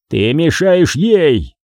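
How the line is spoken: Shouted. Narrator (Russian): прокричал Том

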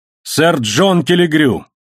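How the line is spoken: Loud shout. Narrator (Russian): крикнул он громким голосом

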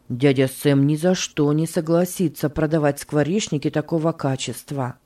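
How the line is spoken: Mutter. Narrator (Russian): пробормотал Джордж

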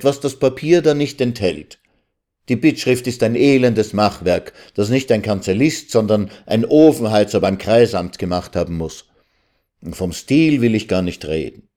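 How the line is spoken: Calling out. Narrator (German): rief der Student

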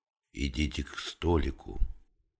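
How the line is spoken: Whisper. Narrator (Russian): шепнула в спину ему старшая

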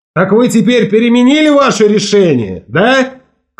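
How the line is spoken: Shout across distance. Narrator (Russian): крикнул Волк Ларсон по адресу бывших на лодке людей, словно думал, что они могут его услышать

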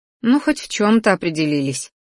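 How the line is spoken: Sigh. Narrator (Russian): вздохнула

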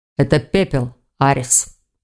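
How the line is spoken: Calm. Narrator (Russian): спокойно произнес Хью

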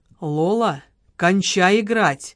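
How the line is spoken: Attempted sternness, trembling voice. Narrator (Russian): Леня хотел сказать это строго, но голос его против воли дрогнул

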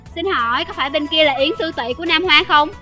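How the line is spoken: Young man's raised greeting. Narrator (Vietnamese): cao giọng chào hỏi

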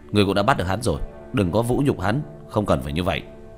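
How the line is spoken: Distant loud shout. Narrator (Vietnamese): Diệp Thiếu Dương từ xa đã quát lớn

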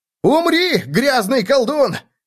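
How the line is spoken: Shout from behind. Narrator (Russian): выкрикнул кто-то за его спиной

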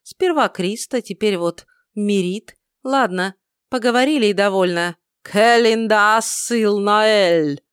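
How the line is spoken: Shouted incantation. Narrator (Russian): он, выкрикнув последнее слово заклятия

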